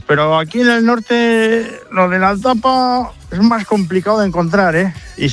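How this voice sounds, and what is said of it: Strong regional La Rioja accent. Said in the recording (Spanish): “Es de La Rioja, hombre, ¿no?... Menudo acento tiene.”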